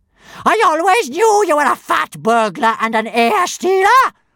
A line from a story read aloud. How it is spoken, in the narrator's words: roared Big-Boobied Bertha